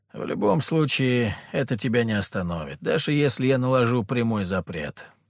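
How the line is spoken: Sigh. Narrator (Russian): вздохнул патриарх

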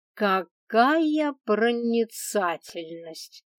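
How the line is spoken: Snide drawl. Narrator (Russian): Ехидно протянула

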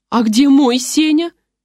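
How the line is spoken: Siren-like wail. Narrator (Russian): сиреной взвыла Екатерина

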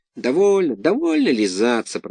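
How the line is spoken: Grumbled. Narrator (Russian): проворчал Буратино

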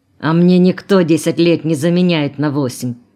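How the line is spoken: Angry interruption. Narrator (Russian): перебил его зло Ленчик

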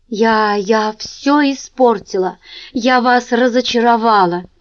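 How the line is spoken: Moaning. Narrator (Russian): простонала Джинджер

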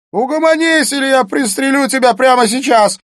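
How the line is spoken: Shouting. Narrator (Russian): закричал Смит

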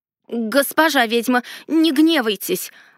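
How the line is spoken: Exclaiming gnome. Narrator (Russian): воскликнул гном Рарик

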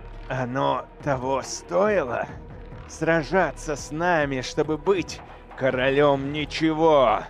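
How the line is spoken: Warrior speaking through teeth. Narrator (Russian): процедил воин

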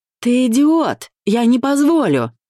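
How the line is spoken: Yelling. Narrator (Russian): заорал Ромка

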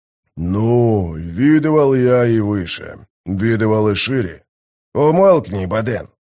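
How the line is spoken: Grumbled. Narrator (Russian): буркнул Гиборик

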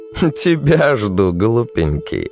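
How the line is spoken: Laughing. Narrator (Russian): она рассмеялась

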